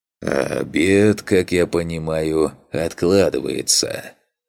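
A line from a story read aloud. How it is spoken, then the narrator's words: Heavy sigh. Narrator (Russian): Тяжело вздохнул Фантик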